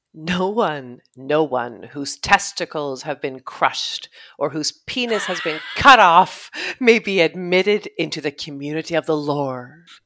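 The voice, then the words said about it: Solemn godly preaching voice. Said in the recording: “I'm going to say this in my godly voice”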